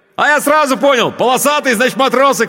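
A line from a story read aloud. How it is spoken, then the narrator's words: Shouting over engine noise. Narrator (Russian): крикнул он, стараясь перекрыть шум мотора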